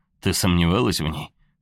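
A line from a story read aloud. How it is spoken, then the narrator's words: Chuckling. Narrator (Russian): отец хохотнул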